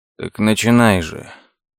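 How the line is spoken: Weary sigh. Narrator (Russian): Лес устало вздохнул

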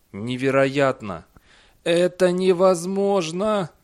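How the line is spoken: Groaning. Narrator (Russian): простонал Эндерби

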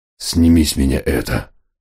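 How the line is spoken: Muffled growl. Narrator (Russian): глухо прорычал Фенрир

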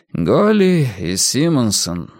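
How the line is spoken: Sighing. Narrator (Russian): вздохнул Эрик

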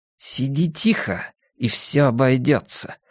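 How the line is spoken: Hissed through teeth. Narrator (Russian): сквозь зубы прошипела она

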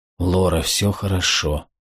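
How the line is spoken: Murmured into her ear. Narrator (Russian): пробормотал ей в ухо

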